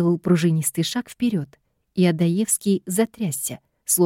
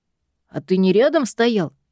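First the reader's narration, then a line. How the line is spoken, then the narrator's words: Short snarl. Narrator (Russian): Коротко огрызнувшись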